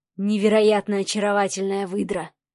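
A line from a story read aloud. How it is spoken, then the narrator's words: Breathless. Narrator (Russian): выдохнул Сава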